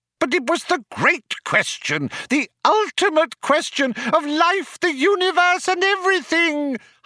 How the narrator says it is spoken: howled Loonquall

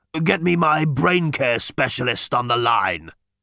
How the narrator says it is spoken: he croaked

